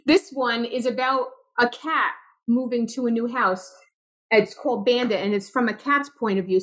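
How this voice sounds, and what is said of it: Brooklyn accent. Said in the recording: “you didn't leave your Brooklyn accent behind. ... No, I didn't.”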